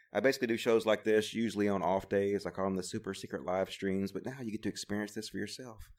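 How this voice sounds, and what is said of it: Soft, laid-back radio-style voice. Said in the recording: “I'm laying back on my wedge, and I'm using my soft NPR voice”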